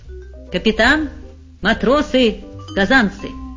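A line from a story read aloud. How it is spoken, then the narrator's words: Solemn announcement. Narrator (Russian): пан Клякса торжественно произнес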